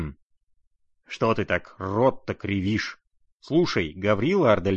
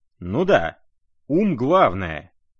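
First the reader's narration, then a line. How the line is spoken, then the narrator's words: Agreeing. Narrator (Russian): поддакнул он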